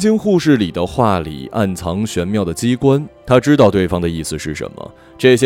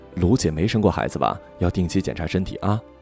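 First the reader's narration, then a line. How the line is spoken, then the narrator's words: Whisper. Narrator (Chinese): 护士悄声在他耳边说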